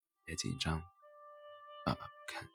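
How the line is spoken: Laughing, reassuring. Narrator (Chinese): 却笑着说

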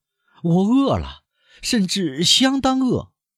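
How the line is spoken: Raised voice. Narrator (Chinese): 他提高声音补充说

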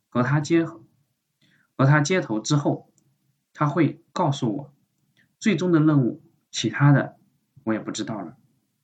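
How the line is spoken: Nearly choking up. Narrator (Chinese): 林峰几乎用哽咽的语气告诉他

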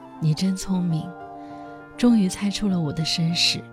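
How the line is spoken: Sighing young girl. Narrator (Chinese): 那少女叹了一口气，说道

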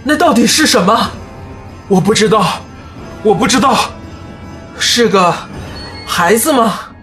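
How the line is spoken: Panting, shouting. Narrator (Chinese): 人们大喘着粗气，互相大喊

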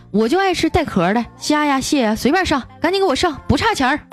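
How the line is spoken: Arrogant, boastful. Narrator (Chinese): 一个暴发户牛气冲天的说

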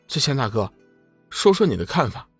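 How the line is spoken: Hurried. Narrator (Chinese): 龙宇急忙道

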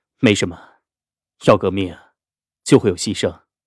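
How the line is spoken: Faint smile. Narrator (Chinese): 淡淡笑了

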